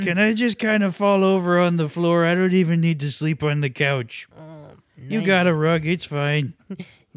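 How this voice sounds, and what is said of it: Tired, sleepy character voice. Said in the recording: “You sound very tired,”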